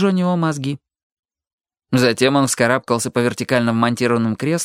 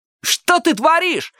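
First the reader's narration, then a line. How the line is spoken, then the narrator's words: Yelling. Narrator (Russian): заорал Ник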